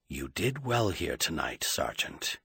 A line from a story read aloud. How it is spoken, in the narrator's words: he told the Chisomian quietly